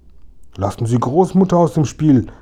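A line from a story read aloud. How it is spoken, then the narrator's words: Indignant exclamation. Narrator (German): rief Kasperl entrüstet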